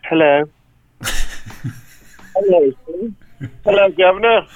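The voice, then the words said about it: Put-on British accent. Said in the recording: “Think it'd be weird if everyone had like a British accent.”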